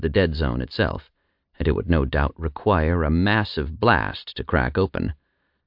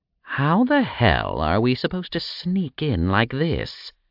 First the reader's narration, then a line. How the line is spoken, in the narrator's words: Agras spat